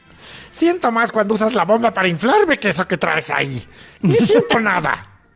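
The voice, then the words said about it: Bad put-on witchy woman's voice. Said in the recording (Spanish): “Cada vez tienen peor voz las muñecas inflables... Es la única voz de mujer que se hace, ¿no? De mujer, ¿no?... De bruja será.”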